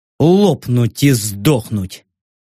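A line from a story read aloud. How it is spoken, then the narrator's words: Displeased, through teeth. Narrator (Russian): процедил я недовольно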